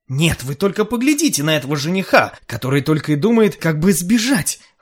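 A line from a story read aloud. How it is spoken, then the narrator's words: Exclaiming. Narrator (Russian): воскликнул Кальдеруб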